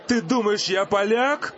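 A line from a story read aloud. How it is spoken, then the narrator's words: Yell. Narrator (Russian): завопил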